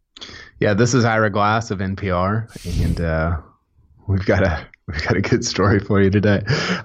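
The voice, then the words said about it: Imitates another person's voice. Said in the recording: “does the Ira Glass voice, and like the cadence is hilarious”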